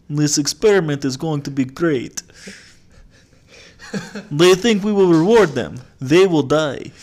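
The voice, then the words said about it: Put-on Russian accent. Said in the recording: “I'm a good impressionist. I can be one of the Russian scientists.”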